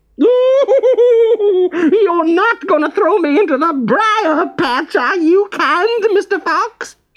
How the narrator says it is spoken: shrieked Br'er Rabbit

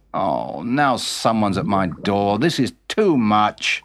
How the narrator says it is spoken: grumbled UK

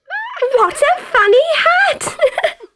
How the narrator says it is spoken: shouted a little girl, jumping up and down with excitement

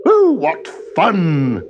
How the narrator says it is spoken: cried the woman

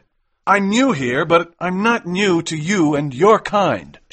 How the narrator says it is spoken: shouted McMurdo

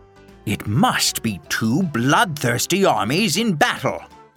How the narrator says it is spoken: exclaimed Don Quixote

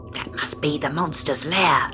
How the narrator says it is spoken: hissed Flash

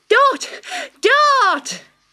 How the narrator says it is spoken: she cried

